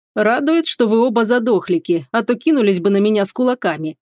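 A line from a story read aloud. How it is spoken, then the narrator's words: Smirking dragon. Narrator (Russian): хмыкнул дракон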